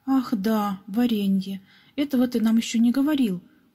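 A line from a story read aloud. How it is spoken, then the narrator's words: Exclaiming. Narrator (Russian): воскликнул Пепс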